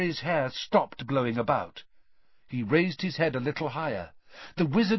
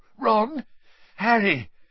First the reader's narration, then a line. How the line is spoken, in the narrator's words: His voice sounded shaky